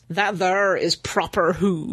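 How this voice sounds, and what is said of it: Failed attempt at American accent. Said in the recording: “That was meant to be an American accent. ... That didn't work.”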